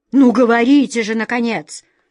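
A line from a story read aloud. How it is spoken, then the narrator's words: Stern command. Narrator (Russian): строго приказала королева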